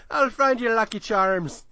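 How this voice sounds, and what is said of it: Bad put-on Irish accent. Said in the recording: “not even a good... Irish accent. It's so bad.”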